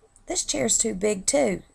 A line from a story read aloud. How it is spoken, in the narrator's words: she whined